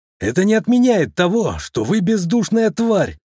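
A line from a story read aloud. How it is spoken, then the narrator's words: Yell. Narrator (Russian): заорал Ключников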